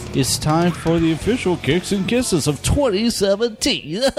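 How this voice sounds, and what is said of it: Professional radio announcer voice. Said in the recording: “You made that sound so professional ... I'm going with my radio voice.”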